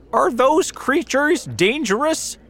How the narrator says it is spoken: shouted the police officer

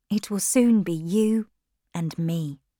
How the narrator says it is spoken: his lips quietly said

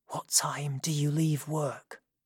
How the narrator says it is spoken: whispered

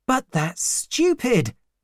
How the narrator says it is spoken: he cried

